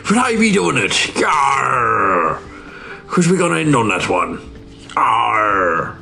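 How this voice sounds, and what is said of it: Put-on pirate accent. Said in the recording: “a pirate accent”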